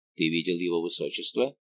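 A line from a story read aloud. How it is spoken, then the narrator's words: Quick question. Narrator (Russian): быстро спросил граф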